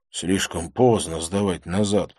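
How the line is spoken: Grumbled. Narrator (Russian): пробурчал я

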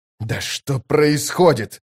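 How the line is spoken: Angry hiss. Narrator (Russian): выходя из себя, прошипел Кол

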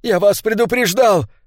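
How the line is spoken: Shouting. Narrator (Russian): крикнул он

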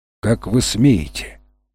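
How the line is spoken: Menacing. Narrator (Russian): грозно произнесла она

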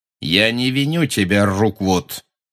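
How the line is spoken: Cold cruel voice. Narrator (Russian): сказал Гарри тем же холодным, жестоким голосом

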